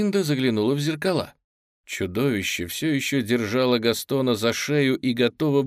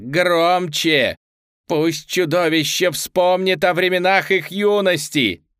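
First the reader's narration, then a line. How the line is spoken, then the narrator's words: Shrieking chorus. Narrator (Russian): завопили сестры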